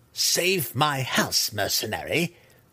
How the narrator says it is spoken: she growled

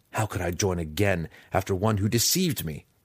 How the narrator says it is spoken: snarled

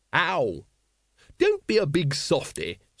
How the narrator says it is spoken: said Lady Ramkin cheerfully

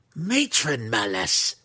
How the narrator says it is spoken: she growled, her angry scowl

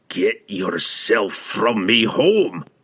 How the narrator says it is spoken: he roared at Shimmergloom

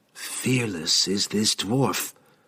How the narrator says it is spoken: Whisper offered, sensing his dismay and taking pleasure in furthering his discomfort

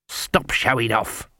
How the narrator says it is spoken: Granny hissed

